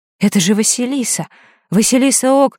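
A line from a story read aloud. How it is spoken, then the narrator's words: Exclamation from behind. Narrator (Russian): воскликнул кто-то позади, кажется, Ник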